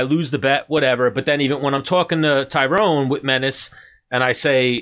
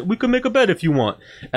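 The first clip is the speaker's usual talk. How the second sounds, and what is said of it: Imitation of Tyrone Spong's accent. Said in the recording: “Tyrone said we can make a bet if you want in his accent. ... Tyrone Spong said this.”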